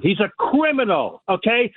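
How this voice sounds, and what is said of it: Yelling, loud angry voice. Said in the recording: “I'm yelling.”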